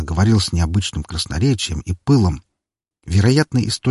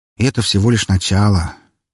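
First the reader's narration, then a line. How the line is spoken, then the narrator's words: Sigh of mock regret. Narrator (Russian): вздохнул с преувеличенным сожалением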